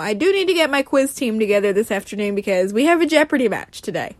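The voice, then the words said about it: Voice in poor condition. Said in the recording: “my voice is a load of crap today”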